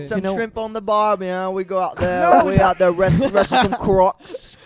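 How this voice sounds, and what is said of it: Put-on Australian accent. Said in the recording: “Australian right there.”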